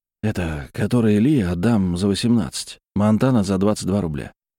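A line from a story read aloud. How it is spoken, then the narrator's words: Quiet whisper. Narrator (Russian): ответил негромким шепотом первый продавец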